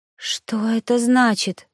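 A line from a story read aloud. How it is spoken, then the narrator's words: Frightened gasp. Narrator (Russian): выдохнула я испуганно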